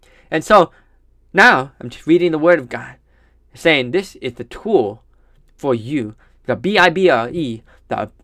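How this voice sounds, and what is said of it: Distinctive accent. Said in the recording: “Something about your accent. Can't get enough, brother.”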